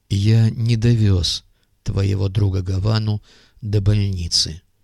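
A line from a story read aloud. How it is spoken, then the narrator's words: Calm explanation. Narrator (Russian): пояснил Андрей Сергеевич все тем же спокойным тоном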